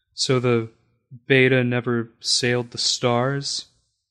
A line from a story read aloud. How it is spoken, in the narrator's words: asked Mother, her voice quavering a little